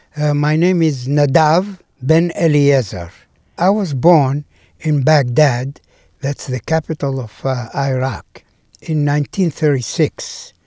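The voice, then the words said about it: Foreign accent, clearly understandable. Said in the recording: “I have an accent, but uh, it doesn't bother anybody from uh, understanding every word”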